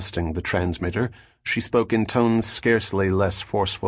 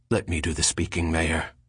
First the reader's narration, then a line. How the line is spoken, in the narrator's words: Cadell whispered to Brano